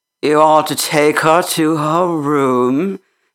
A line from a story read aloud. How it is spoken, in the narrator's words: said in a husky voice